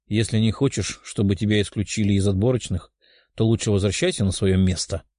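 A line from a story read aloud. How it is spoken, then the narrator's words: Calm young man. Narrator (Russian): спокойным голосом сказал парень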